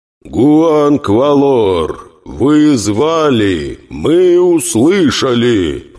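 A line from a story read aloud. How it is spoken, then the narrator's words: Roaring divine voice. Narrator (Russian): проревел в головах тысяч горожан голос двуликого бога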